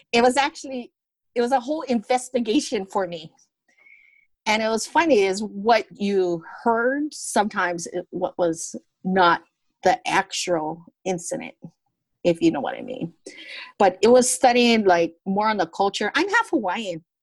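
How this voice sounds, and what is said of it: Heavy Hawaiian pidgin accent. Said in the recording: “I got I got a heavy pidgin accent”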